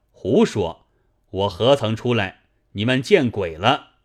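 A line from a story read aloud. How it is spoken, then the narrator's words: Plain. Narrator (Chinese): 军人道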